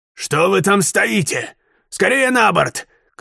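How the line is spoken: Distant shout. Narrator (Russian): крикнул с корабля лорд Паунд

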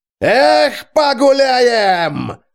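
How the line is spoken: Rowdy yell. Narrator (Russian): заорал Джузеппе

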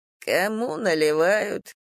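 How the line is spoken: Sad drawl, drunkard. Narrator (Russian): грустно протянул алкаш

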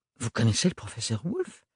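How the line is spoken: Stammering, increasingly surprised. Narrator (French): balbutia Ophélie, de plus en plus surprise

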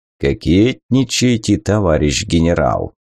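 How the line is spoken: Quiet deep bass. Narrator (Russian): огромный Ипат тихонько пробасил

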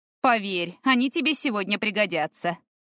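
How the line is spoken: Snorting. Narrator (Russian): хмыкнула Мирна

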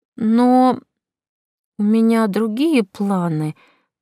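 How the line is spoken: Timid objection. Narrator (Russian): попыталась возразить я робко

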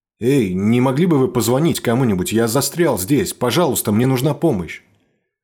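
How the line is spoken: Desperate shout. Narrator (Russian): Отчаянно выкрикнул я

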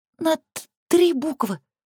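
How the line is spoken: Little sister's excited whisper. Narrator (Russian): взволнованно шепчет сестренка

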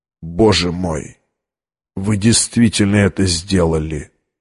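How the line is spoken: Whisper. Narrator (Russian): прошептал

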